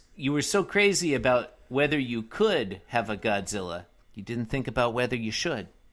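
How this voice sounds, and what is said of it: Imitates another person's voice. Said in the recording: “great Jeff Goldblum impression”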